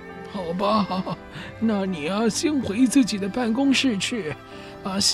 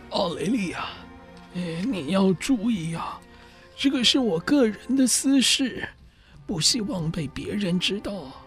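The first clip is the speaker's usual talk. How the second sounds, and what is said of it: Quiet, hushed speech. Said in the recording (Chinese): “小声地说”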